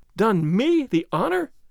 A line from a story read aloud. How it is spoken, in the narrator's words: She cried angrily, and almost in tears